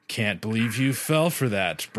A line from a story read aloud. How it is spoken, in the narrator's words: Brian chuckled